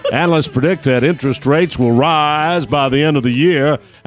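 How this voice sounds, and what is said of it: Put-on Southern American accent. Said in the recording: “I'm doing a Southern accent for a Northern California commercial”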